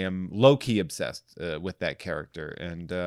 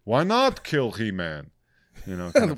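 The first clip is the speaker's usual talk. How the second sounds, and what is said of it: Zoidberg-style cartoon character voice. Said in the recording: “like Dr. Zoidberg? ... A really good impression.”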